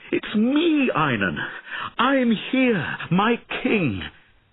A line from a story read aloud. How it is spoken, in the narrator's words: Sir Bowen ran to Einan and cried